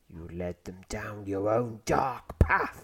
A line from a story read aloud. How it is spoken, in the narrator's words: he snarls